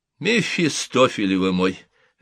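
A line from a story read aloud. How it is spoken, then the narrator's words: Laughing. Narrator (Russian): рассмеялся Деде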